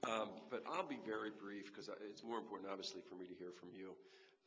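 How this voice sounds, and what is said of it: Sick, strained voice from a cold. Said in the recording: “I apologize for my voice. ... have had this cold”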